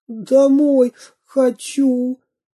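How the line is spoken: Sniffling whimper. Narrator (Russian): всхлипнул Веня Кашкин

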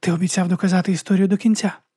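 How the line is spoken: Whisper. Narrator (Ukrainian): прошепотіла

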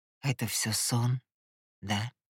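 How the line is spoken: Barely audible whisper to himself. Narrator (Russian): Едва слышно прошептал он, словно даже не мне, а себе

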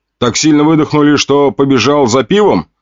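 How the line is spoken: Amused snort. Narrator (Russian): хмыкнул я

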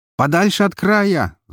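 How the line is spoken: Shouted. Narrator (Russian): закричал

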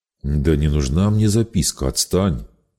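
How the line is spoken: Grumbling. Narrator (Russian): Не принимая игры, проворчал механик

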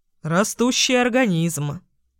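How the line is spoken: Snorting. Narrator (Russian): хмыкнул папа

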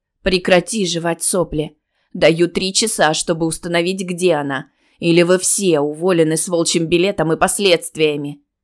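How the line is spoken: Growling. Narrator (Russian): Нина рычала

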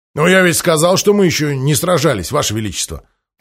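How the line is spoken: Grumbling. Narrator (Russian): проворчал Махони

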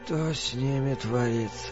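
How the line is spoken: Miserable voice. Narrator (Russian): несчастным голосом спросил Норман

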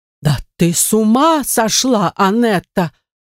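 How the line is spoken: Exclaimed. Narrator (Russian): воскликнула госпожа Монтони

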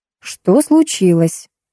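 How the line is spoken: Calm question. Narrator (Russian): спокойно поинтересовалась я

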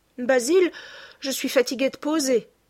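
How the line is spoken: Sudden shout. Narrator (French): cria tout à coup Dorian Gray

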